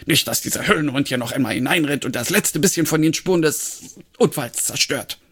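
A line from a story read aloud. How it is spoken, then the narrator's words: Barked. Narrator (German): bellte Fumble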